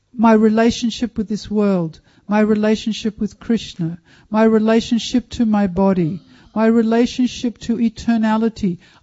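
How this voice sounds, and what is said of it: Speaks with a noticeable accent. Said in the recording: “excuse my accent”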